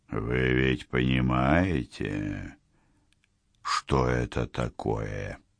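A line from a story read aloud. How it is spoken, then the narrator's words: Cold smiling question. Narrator (Russian): Холодно улыбаясь, спросил он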